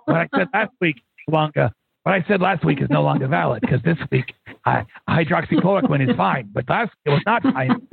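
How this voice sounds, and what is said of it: Imitates another person's voice. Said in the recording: “I'm waiting for you to do the impersonation.”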